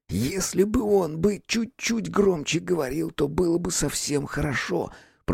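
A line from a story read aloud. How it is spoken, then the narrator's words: Whisper. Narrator (Russian): прошептал Витька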